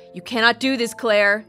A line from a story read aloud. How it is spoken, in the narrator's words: the woman said firmly